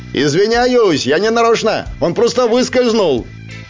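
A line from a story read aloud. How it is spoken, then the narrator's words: Gloating shout. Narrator (Russian): я злорадно крикнул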